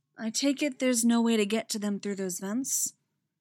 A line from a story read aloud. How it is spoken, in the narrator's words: she says, her voice still gentle and full of sympathy